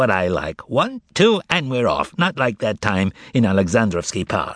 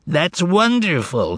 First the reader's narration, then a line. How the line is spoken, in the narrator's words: exclaimed Azazello